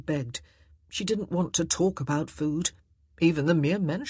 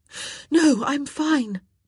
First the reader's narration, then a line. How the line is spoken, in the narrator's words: Daphne gasped